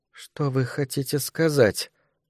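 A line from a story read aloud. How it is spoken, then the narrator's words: Strained, forced out. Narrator (Russian): выдавила мисс Джеймс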